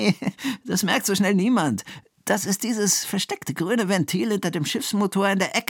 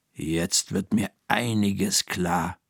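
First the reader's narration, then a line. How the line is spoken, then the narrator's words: Murmured. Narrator (German): murmelt Frau Krüger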